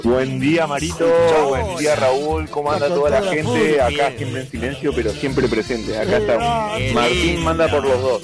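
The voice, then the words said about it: Strong, announcer-like voice. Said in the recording (Spanish): “Tiene una voz más fuerte que la de Martín. ... voz de locutor”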